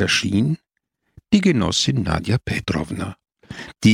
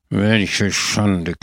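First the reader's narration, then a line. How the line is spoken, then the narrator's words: Growled. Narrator (German): knurrte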